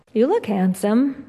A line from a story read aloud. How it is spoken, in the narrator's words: Monica says